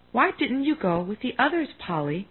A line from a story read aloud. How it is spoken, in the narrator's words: she asked kindly